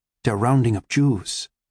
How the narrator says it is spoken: my father whispered

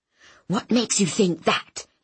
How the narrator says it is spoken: he breathed into my ear

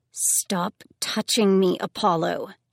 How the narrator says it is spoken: she said through her teeth

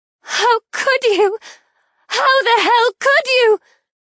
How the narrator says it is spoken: Elizabeth cries out

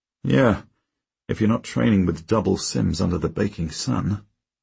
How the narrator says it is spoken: I mutter

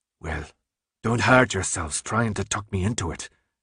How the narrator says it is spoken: he finally growled

